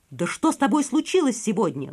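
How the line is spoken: Exclaiming. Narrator (Russian): воскликнул Мишра

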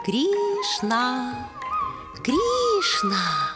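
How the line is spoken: Sweet-voiced parrot mimicking. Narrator (Russian): красивый, в разноцветном оперении попугай, копируя ее, сладким голосом повторял

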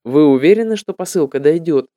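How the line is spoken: Plain. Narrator (Russian): спросил я

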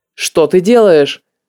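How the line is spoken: Stern question. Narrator (Russian): строго спросил он

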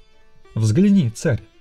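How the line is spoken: Exclamation. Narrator (Russian): воскликнул он

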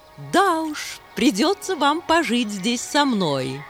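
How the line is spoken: Laughing. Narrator (Russian): снова засмеялась подруга Хемы

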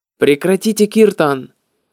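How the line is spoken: Servant shouting. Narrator (Russian): слуга Прабхупады и закричал

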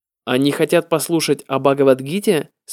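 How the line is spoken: Plain question. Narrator (Russian): спросил Прабхупада

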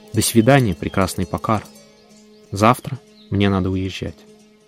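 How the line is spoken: Quiet. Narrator (Russian): я тихо сказал горам, небу и воде

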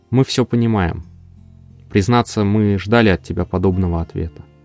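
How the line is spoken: Quiet. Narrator (Russian): Он негромко произнес

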